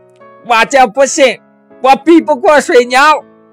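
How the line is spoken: Loud yelling. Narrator (Chinese): 他大声地嚷道

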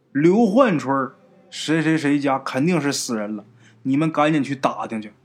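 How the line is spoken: Long sigh. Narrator (Chinese): 马老四啊，长叹一口气就说呀

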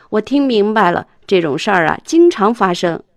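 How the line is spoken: Smiling driver. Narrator (Chinese): 司机微笑着说

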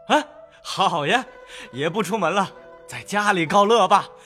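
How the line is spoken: Laughing. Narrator (Chinese): 冯子英笑道

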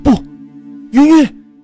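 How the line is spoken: Anguished shout. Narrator (Chinese): 刀扎在云云身上，连云大叫

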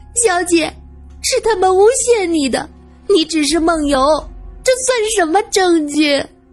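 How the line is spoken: Angry. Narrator (Chinese): 罗隐这一次是真的火了

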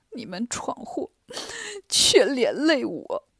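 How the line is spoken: Crying, complaining. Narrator (Chinese): 唐僧哭着埋怨三个徒弟

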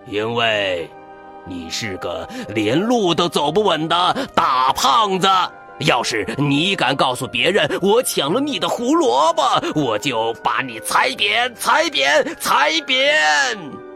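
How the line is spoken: Angry yell. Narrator (Chinese): 大坏兔对着他大吼

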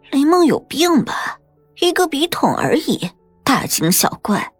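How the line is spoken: Drowsy, hoarse voice. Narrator (Chinese): 李小诗用朦胧的眼睛看了看……声音沙哑的说

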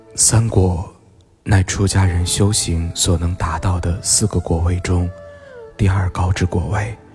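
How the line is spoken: Sighing, calm reply. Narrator (Chinese): 他叹息着，深吸一口气，平缓的回答

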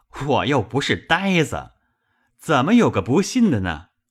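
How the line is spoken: Hasty laughing. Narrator (Chinese): 薛蟠忙笑道

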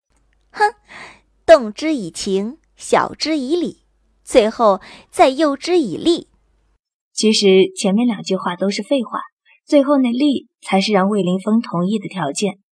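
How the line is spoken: Weak, chuckling. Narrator (Chinese): 我勉强撑起身子，嘿嘿一笑，道

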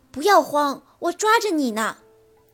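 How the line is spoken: Shouting. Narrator (Chinese): 猪猪大喊

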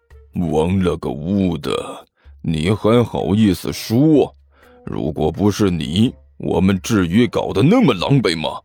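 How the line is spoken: Cautious low whisper. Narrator (Chinese): 他小心翼翼的低声问道

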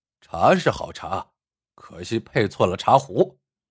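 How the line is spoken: Cold voice. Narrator (Chinese): 一个声音冷冷的说道

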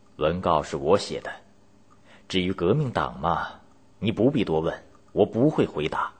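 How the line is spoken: Cold. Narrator (Chinese): 秋瑾冷冷的回答

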